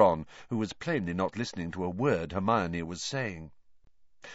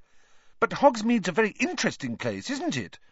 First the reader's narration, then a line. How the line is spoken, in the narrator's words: Hermione pressed on eagerly